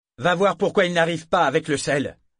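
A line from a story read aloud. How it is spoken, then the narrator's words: Curt order. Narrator (French): lui ordonna-t-il d'un ton cassant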